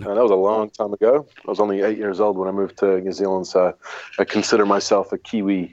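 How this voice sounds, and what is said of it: Unusual mixed accent, American-influenced English. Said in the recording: “I learned to speak English by watching American television, which is why I have this really weird accent.”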